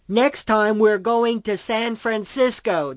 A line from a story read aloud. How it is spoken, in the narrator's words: the man yelled